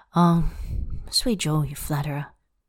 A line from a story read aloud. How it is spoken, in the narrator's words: he murmurs